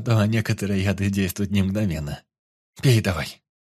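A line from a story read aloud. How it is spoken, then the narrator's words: Menacing. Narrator (Russian): Грозно сказала Моргана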